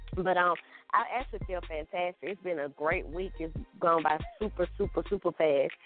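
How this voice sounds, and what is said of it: Slightly out of breath. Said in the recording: “I'm a little out of breath. I was dancing during the whole last song”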